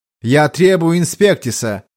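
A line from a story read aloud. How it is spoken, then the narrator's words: Loud interruption. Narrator (Russian): громко перебил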